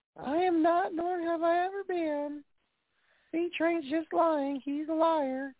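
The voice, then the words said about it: Bad impression of a grandmother. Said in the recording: “that's my worst impression of Granny”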